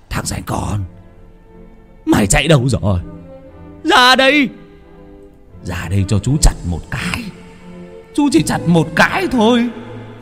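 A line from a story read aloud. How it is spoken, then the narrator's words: Distant cackling, yelling. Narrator (Vietnamese): Đâu đó ở đầu làng còn nghe rõ tiếng của chú Hùng vẫn đang cười sằng sặc, kêu gào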